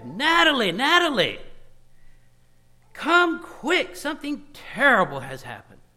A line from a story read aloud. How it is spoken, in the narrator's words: he shouted to his wife